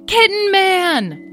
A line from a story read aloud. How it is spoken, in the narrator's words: they yelled